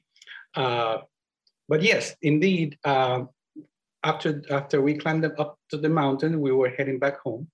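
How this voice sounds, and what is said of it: Spanish accent, Puerto Rican speaker. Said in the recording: “that's where you can hear my Spanish accent, which, by the way, because English is not my primary language”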